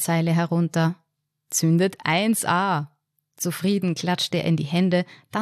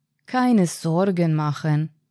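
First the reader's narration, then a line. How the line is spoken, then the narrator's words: Said gently. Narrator (German): sagte er sanft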